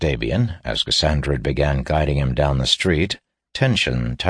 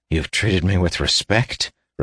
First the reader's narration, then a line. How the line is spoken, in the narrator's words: repeated Davian bitterly